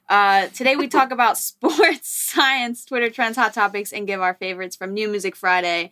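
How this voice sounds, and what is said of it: Strained, hoarse voice. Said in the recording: “I'm losing my voice. I was yelling in spin class today.”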